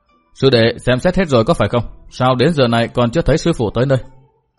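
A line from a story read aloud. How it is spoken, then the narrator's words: Low, deep voice. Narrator (Vietnamese): trong lòng cười nhạt thầm, trầm giọng nói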